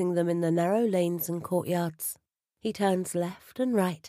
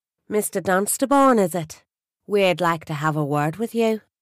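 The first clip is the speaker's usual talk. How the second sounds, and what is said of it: Strong Irish accent. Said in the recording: “She speaks with a strong Irish accent.”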